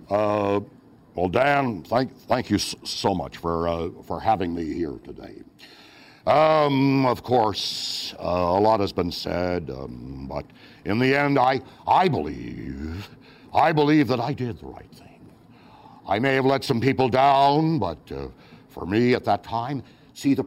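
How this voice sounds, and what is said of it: Impression of President Nixon. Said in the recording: “You impersonated President Nixon, ... Can you still do a reasonable Nixon?”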